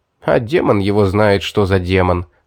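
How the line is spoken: Chuckling. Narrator (Russian): хохотнул Улис

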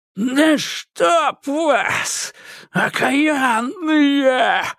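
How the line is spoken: Yelling. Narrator (Russian): завопил

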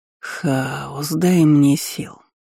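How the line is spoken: Sighing. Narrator (Russian): вздохнул декан

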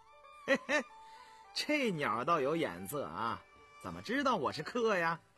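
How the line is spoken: Laughing, from outside. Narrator (Chinese): 便听门外有人笑道

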